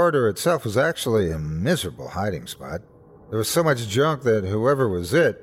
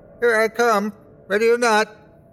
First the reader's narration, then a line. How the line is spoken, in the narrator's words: yelled Ty